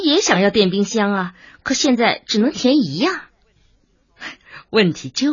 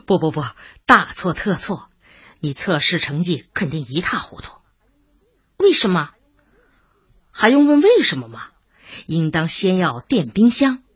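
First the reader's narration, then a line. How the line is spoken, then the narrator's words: Laughing. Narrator (Chinese): 白小东笑起来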